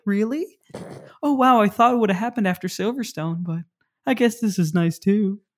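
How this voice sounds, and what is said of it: Imitates another person's voice. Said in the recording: “my Mick Schumacher impression... the bright eyed cherub”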